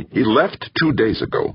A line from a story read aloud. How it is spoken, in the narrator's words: Molina snapped